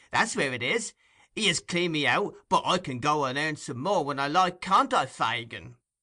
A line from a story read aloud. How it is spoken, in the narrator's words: cried Tom triumphantly